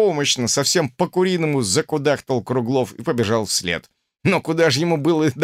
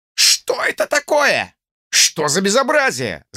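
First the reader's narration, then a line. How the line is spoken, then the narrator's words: Shouted. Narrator (Russian): закричал Михин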